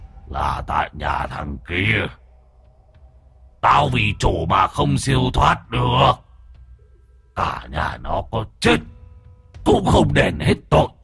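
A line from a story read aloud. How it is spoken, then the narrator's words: Deep, booming voice. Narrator (Vietnamese): giọng nói ồm ồm vang lên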